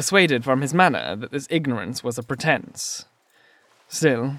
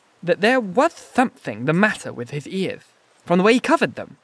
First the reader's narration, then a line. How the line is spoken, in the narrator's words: said deliberately, with a certain extenuation of his flavouring of lisp